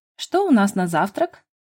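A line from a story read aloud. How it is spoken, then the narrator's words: Cheerful question. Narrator (Russian): Бодро поинтересовалась я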